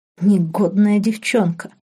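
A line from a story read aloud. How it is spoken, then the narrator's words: Delighted whisper. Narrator (Russian): с восторгом прошептал он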